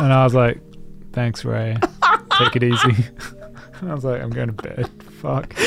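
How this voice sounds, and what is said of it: Usual voice. Nothing is said of it.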